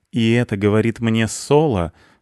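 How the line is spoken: Cat snorting. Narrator (Russian): фыркнул кот

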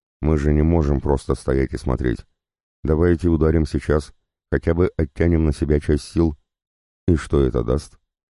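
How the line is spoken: Forced calm, suppressed frustration. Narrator (Russian): Я стараясь говорить спокойно, хотя внутри все кипело от бессилия

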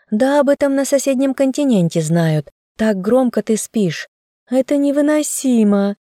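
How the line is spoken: Moaning. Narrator (Russian): простонала Мари

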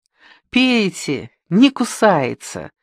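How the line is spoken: Cheerful. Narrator (Russian): весело произнесла она

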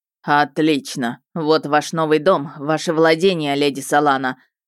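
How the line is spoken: Dragon's displeased snort. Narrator (Russian): сказал дракон, недовольно фыркнув

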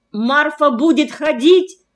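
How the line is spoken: Shouted in sudden realization. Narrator (Russian): Поняв, закричал я

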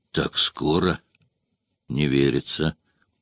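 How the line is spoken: Whisper to oneself. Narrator (Russian): прошептал, как будто говорил с самим собой

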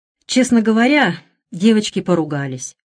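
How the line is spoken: Sighing. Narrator (Russian): вздохнула Олимпия

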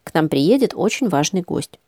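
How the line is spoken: Plain. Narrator (Russian): сказала она

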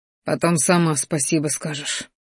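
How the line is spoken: Scoffing fighter. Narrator (Russian): хмыкнул боевик

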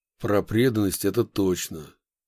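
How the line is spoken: Gloomy agreement. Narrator (Russian): мрачно согласился Яковлев

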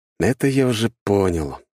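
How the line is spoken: Sigh. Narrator (Russian): вздохнул я

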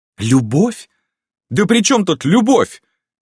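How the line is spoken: Exclamation. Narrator (Russian): воскликнула графиня

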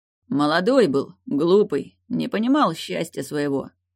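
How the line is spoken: Conciliatory deep bass. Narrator (Russian): примирительно пробасил князь

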